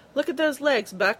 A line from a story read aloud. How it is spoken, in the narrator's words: he hollered to his friend